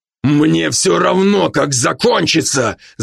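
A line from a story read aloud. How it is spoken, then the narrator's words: Shouting. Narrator (Russian): закричал Брок, грохнув по столу кулаком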